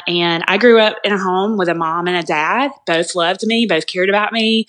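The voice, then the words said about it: Southern US accent, Alabama. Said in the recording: “If you guys can hear the accent ... we can hear it, yeah ... Southern born and raised in the state of Alabama”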